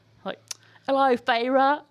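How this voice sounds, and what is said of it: Mixed Australian-British put-on accent. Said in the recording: “That sounded like a mixture between Australian and British.... You're so good at accents.”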